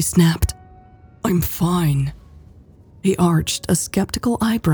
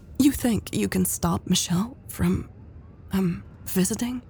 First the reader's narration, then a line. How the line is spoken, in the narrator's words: Elle asked hesitantly